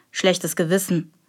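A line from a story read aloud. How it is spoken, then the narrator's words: Murmur. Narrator (German): murmelte Geronius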